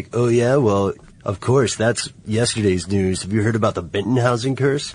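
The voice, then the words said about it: Strange put-on voice. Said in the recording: “in an equally strange voice”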